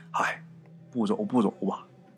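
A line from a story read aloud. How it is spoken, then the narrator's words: Old elder sighing. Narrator (Chinese): 村里边德高望重的这个老辈儿啊，抽着烟呐，叹口气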